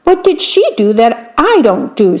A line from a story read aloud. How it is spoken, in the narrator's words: said the man crossly